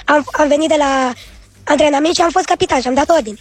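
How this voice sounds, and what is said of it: Hoarse child's voice. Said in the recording (Romanian): “sunt atât de răgușit”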